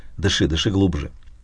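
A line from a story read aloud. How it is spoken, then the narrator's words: Whispering. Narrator (Russian): шептал я несчастному сироте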